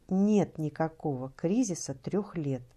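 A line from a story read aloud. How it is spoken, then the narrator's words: Plain. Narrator (Russian): сказала я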